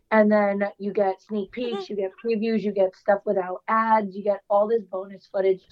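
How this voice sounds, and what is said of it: Strained, struggling voice. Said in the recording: “my voice is literally like struggling. Like my body hates me.”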